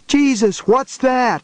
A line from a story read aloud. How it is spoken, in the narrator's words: Mary screamed